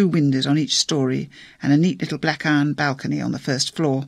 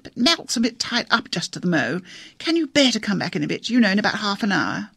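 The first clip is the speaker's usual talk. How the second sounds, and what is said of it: Gaspy, exaggeratedly grand posh accent. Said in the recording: “a kind of gaspy, exaggeratedly grand accent”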